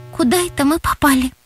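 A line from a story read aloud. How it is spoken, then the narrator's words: Frightened whisper. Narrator (Russian): испуганно прошептала Настя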